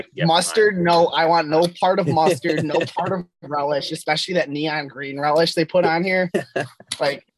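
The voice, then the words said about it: Chicago accent. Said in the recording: “his wonderful accent ... originally from Chicago”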